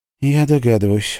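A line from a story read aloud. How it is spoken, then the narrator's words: Gloomy. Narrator (Russian): мрачно сказала Орли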